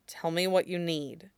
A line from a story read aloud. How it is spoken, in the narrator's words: Alistair says quietly